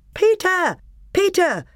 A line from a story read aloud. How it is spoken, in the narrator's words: cried Edmund